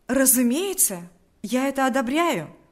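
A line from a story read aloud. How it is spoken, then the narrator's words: Eager exclamation. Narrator (Russian): воскликнул с готовностью Павел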